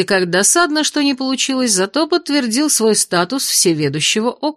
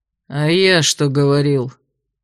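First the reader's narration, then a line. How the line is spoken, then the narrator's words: Grumbling, displeased yet satisfied. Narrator (Russian): Пробурчал хозяин кабинета со странной смесью недовольства и удовлетворения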